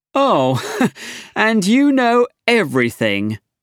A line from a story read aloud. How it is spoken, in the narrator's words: Arthur laughed